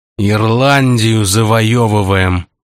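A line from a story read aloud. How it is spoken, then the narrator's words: Through gritted teeth. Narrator (Russian): сквозь зубы процедил маркиз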